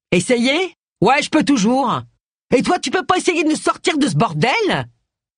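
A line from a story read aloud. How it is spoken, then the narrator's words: Yelled. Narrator (French): hurla-t-il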